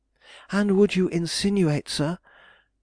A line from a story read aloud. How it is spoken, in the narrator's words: she cried, with a look of great anger